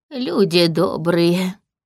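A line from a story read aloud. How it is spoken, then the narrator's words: Trembling voice. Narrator (Russian): завел он дрожащим голосом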